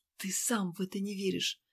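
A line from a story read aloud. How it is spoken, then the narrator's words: Breathy whisper. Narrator (Russian): прошептала с придыханием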